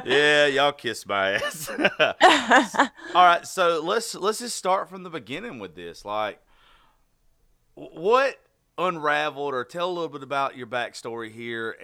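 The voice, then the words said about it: American Southern accent. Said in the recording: “the good Lord intended to everybody to talk with a Southern accent, if some of y'all didn't end up so lucky as we did ... I'll trade my accent for your weather”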